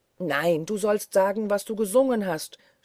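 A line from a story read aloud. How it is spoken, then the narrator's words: Screamed, nearly beside himself. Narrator (German): schrie Peter beinahe außer sich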